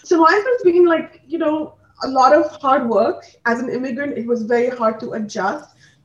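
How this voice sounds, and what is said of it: Indian English accent. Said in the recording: “mera Indian accent bhi nikal jata hai ... my English is a little bit different. It's because I've adapted the accent here, but I also have that Indian accent.”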